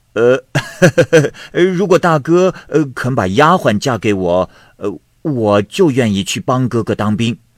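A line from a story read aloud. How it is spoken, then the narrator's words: Smiling. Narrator (Chinese): 薛禄一笑说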